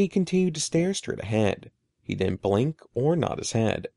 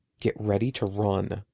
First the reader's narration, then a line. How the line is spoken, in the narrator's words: I leaned close to Eddie and whispered